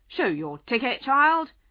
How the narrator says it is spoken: the inspector went on, looking angrily at Alice

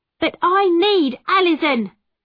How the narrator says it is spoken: my mother shouted angrily

